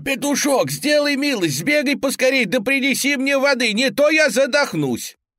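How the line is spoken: Hen's shout. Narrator (Russian): закричала курочка

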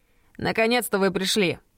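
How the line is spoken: Shout. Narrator (Russian): крикнул Терренс

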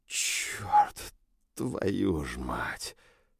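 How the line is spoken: Exhaled. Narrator (Russian): выдохнул я

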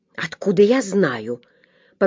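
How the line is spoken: Muttered. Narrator (Russian): пробормотал доктор

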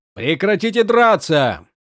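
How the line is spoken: Shouted. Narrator (Russian): крикнул им Каладин

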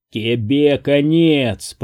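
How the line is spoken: Growling. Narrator (Russian): прорычал Джаклин

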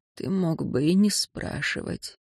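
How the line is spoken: Hoarse rasp. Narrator (Russian): прохрипела

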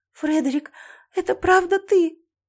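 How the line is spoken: Sobbing. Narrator (Russian): Я всхлипнула

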